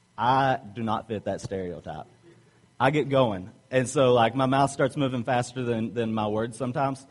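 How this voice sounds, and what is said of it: Southern American accent. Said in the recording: “obviously I have an accent ... I'm from the South ... talk slow and with a Southern drawl”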